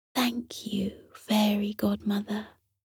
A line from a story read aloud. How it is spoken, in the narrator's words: She whispered a quiet